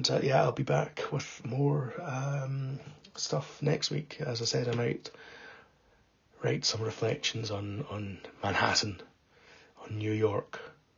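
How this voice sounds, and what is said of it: Raspy, partly lost voice. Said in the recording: “apologies for my voice. I'm a bit raspy. I think I lost my voice a little bit ... It's a tough cold.”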